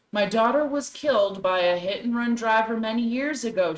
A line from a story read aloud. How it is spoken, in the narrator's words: she said